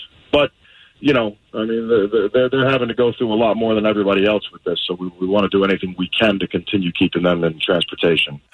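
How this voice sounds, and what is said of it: Fake New York accent. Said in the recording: “this fake New York accent”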